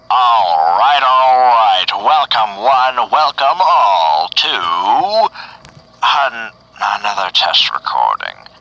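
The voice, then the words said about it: Unpolished announcer voice. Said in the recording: “Man, I gotta really work on that announcer voice.”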